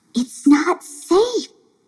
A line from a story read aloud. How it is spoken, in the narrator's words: whispered Melio